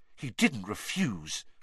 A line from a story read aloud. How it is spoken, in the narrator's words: gasped Hermione